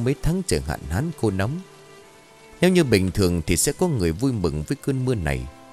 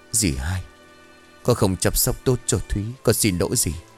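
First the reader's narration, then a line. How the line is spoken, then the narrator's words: Faint whisper. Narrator (Vietnamese): thều thào bảo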